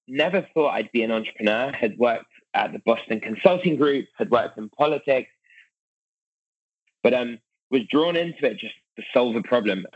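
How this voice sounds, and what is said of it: British accent. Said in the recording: “British accent, grew up in London”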